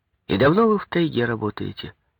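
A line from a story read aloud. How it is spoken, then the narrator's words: Plain. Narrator (Russian): спросил Коньков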